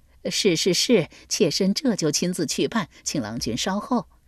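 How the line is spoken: Warm delighted laughing. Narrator (Chinese): 张敖 立时春风满面，洋溢着水蜜桃般的热情来，笑道

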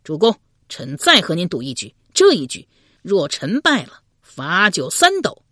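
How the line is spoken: Drunk, defiant, loud. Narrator (Chinese): 有些醉了，越醉心中越是不服，高声说道

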